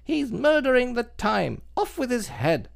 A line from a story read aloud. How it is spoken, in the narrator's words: the Queen bawled out